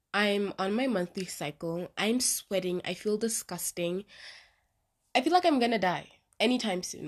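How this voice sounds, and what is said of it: Sick voice from the flu. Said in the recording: “my voice sounds a little bit crazy today. It's because I have flu again”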